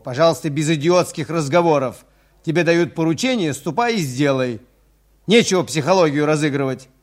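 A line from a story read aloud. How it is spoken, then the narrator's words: Angry yelling. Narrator (Russian): заорал на него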